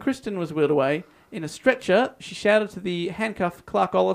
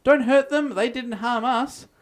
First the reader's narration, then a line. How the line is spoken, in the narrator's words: two female hostages cried